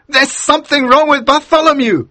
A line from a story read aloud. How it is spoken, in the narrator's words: he cried